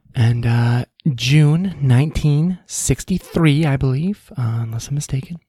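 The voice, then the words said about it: Mock public radio announcer voice. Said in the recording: “I'm doing my NPR voice.”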